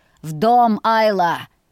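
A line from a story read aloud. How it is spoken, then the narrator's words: Rough bark. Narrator (Russian): грубо рявкнул Ульви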